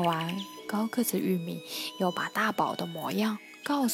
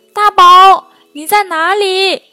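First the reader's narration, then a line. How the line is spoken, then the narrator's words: Young hare calling out. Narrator (Chinese): 小野兔的喊声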